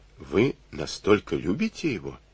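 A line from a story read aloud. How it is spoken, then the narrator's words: Suspicious, gloomy question. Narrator (Russian): подозрительно и мрачно осведомился он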